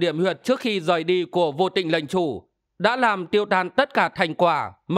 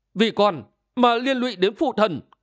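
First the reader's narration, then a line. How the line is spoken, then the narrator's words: Grief-stricken cry. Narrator (Vietnamese): Không sao nén được bi thống đang ngập tràn tâm can, Sĩ Nguyên quay người lại, phủ phục cạnh gối phụ thần, kêu lên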